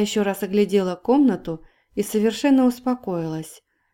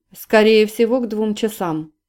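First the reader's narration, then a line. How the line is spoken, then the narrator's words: Dry, curt. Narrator (Russian): сухо проинформировал тот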